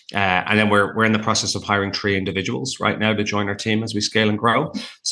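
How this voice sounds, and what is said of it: Irish accent. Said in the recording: “a big, tall, gregarious, tattooed Irishman ... I have a funny accent in North America”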